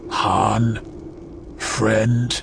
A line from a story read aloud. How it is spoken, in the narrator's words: He sneer-grinned and said